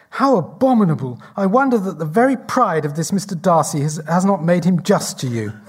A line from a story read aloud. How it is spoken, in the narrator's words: Elizabeth exclaims